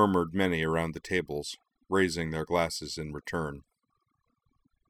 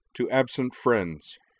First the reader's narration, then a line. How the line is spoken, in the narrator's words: said in a clear, ringing voice